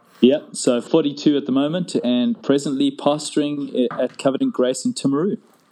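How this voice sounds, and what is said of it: South African accent. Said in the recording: “you've also actually got a funny South African accent... it's also a little bit different from mine... Born in Scotland, raised in South Africa in Joburg... that's where the accent comes from”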